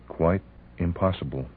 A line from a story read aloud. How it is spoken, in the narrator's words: she murmured